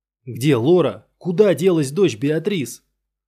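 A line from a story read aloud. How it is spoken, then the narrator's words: Shouted. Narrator (Russian): закричал Дуэйн Андерсон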